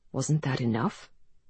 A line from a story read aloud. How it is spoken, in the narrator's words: him say in a low voice